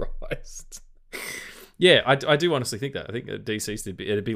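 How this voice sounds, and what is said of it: Usual voice. Nothing is said of it.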